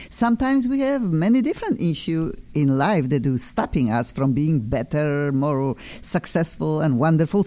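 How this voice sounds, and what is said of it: Noticeable foreign accent. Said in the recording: “I have an accent, cannot get rid of. Love my accent.”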